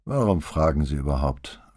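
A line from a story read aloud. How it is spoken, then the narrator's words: Tired reply. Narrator (German): versetzte Feltrinelli müde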